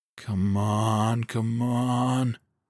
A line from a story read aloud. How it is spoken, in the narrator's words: Moss murmured